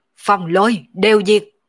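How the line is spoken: Loud shout. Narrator (Vietnamese): Mộng Vô Nhai quát to một tiếng

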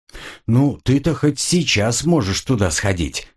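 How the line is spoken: Snorting chuckle. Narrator (Russian): хмыкнул капитан

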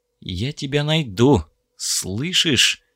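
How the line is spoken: Whispered. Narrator (Russian): прошептал Хокс

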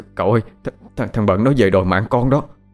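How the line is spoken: Trembling voice. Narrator (Vietnamese): giọng run run nó nói

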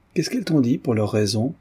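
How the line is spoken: Calm question. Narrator (French): demanda Redzov d'un ton placide

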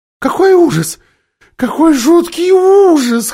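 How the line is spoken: Whimpering. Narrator (Russian): хныкала Лазарелина

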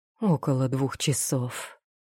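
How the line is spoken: Breathless. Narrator (Russian): выдохнул Эолиндил

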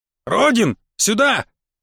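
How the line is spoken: Shouting out. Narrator (Russian): выкрикнул чудак

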